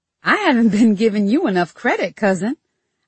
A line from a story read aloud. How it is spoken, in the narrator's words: I said with a laugh